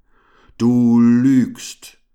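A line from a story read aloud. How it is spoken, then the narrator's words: Thundered. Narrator (German): donnerte er Todespfeil an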